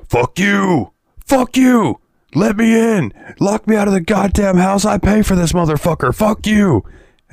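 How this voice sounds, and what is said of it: Yelling, shouted angry lines. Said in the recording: “he's yelling”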